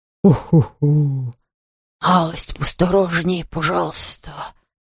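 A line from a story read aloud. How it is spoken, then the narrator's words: Muffled snapping. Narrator (Russian): Глухо огрызнулась Хуга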